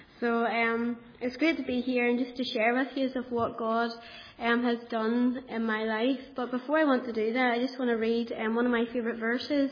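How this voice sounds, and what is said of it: Northern Irish accent. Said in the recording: “You'll probably understand my accent because I'm from Kilkeel and we speak a wee bit the same to people from Ballymena”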